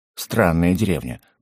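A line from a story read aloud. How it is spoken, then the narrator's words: Through gritted teeth. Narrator (Russian): процедил Угорь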